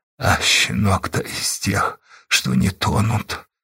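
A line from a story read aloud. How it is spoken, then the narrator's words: Ambivalent mutter. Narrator (Russian): пробормотал он то ли с одобрением, то ли с ненавистью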